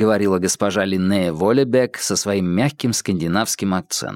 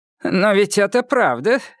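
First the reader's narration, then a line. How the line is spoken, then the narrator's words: Father laughing. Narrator (Russian): рассмеялся ее отец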